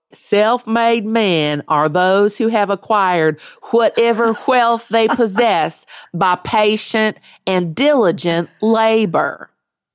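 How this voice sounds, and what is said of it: Put-on Southern US accent. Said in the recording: “only speak to me in that accent ... That was a little more Alabama, I think, than Kentucky ... You said wealth.”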